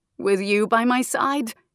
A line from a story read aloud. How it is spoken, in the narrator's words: Anquin chuckled